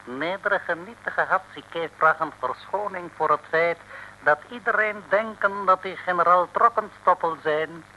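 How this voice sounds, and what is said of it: Put-on foreign Asian accent, broken Dutch. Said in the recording (Dutch): “vreemd accent van Hatzike doen Amerikanen denken aan Europa. Zij als altijd Azië over het hoofd zien.”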